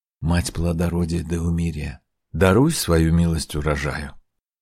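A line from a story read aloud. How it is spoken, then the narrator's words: Whispering. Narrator (Russian): Трипта прошептал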